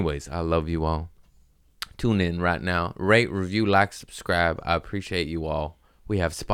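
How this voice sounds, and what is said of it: Usual voice. Nothing is said of it.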